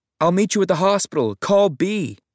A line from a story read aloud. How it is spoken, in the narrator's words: I just shouted